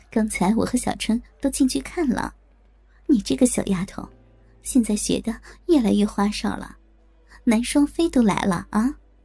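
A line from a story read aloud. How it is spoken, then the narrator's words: Laughing. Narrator (Chinese): 我笑着对莹莹说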